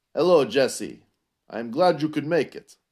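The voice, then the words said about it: Put-on Russian accent. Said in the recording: “that was my Russian accent”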